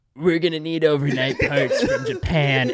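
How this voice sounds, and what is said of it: Imitates another person's voice. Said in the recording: “That impression was actually ... that was really good.”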